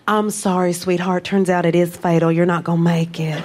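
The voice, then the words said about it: Put-on comforting Southern accent. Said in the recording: “You get the right Southern accent. It's so comforting.”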